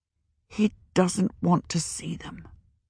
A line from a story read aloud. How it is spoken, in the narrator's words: Tenar said weakly